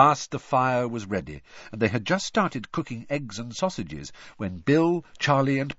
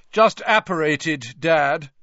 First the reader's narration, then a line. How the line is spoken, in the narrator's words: said Percy loudly